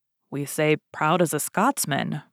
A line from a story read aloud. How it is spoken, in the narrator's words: murmured the Duke of Buckingham